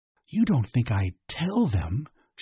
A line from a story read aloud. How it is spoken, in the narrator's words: she whispered